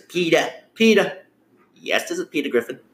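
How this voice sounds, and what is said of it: Peter Griffin impression, New England accent. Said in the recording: “the character on Family Guy, PETA Griffin? I'm trying to say in a New England accent”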